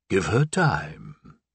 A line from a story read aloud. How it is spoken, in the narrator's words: the voice said teasingly